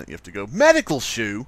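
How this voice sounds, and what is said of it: Attempted British accent, sounds Australian. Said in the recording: “You have to say that in a British accent... That was Australian, but you get the idea... You kind of sound Australian there, actually.”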